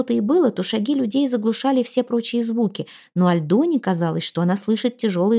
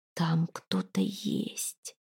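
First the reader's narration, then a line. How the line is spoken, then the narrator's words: Whisper. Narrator (Russian): опять шепнула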